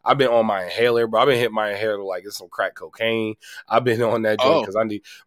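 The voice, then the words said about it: Sick-sounding voice. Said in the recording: “I was sick all weekend. And, like, as y'all can hear it in my voice ... it's still there in my voice, man.”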